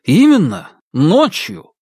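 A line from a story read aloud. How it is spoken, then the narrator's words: Exclaiming. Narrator (Russian): воскликнул Павел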